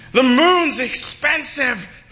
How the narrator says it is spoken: the people yelled back at her

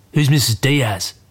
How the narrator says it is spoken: Dad grunts

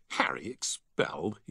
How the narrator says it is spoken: he scoffed

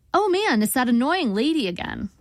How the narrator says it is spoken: I said brightly, trying to defuse the situation

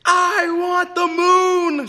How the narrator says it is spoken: she yelled

